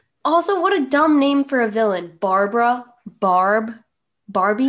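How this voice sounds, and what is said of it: Usual voice. Nothing is said of it.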